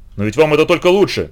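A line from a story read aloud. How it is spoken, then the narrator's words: Shouting. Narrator (Russian): крикнул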